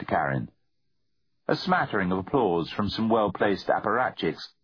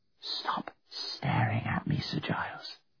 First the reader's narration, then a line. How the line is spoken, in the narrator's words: whispered Karen